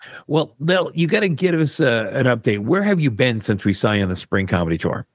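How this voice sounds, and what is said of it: Usual voice. Nothing is said of it.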